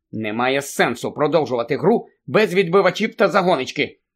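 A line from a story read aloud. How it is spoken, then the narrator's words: Angry. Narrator (Ukrainian): сказала сердито Анджеліна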